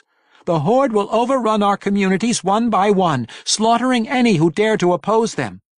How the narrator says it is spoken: Regis continued in the same urgent tones

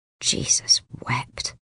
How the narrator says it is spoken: he mutters under his breath

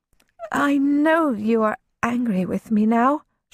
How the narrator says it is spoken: she said, her voice as tentative as a mouse tiptoeing around a cat

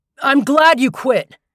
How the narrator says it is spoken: he said, raising his voice to be heard through the window

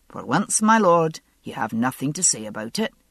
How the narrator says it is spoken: Jamie replied firmly, his distress at leaving tempered somewhat by finally being allowed to speak his mind

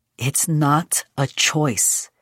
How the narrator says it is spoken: his mother had said, her voice calm but firm

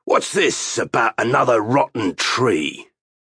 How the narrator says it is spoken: He growled like the bear he resembled and shouted up at Pug

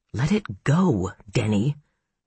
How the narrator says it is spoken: he croaked

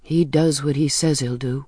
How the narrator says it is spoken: I said bitterly

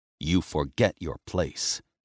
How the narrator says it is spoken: he hissed

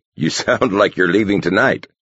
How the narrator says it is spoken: Galt chuckled

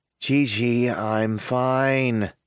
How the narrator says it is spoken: he mumbles

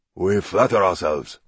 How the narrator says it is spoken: Shigeru Takagishi said softly

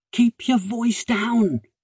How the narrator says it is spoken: he whispered urgently

